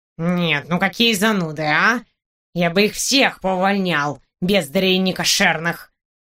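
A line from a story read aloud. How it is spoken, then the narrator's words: Grumbling. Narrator (Russian): Ворчал он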